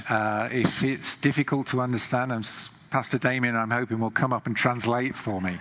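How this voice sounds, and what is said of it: English accent. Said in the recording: “I'm from England, as you can hear, maybe my accent.”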